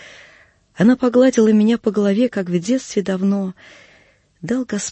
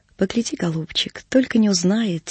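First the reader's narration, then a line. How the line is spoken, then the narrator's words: Quiet call, old woman. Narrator (Russian): тихо позвала старушка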